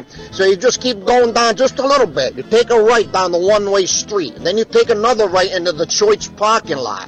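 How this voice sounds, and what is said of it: Put-on Chicago accent. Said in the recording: “That was more like Chicago accent, was it not?”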